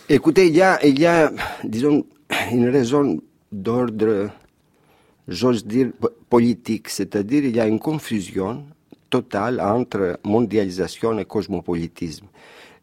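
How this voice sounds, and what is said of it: Foreign accent speaking French. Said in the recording (French): “On entend à votre accent, évidemment”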